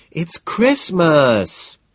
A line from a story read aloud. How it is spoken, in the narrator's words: she whines